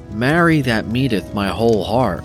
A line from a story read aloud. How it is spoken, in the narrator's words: cried the stranger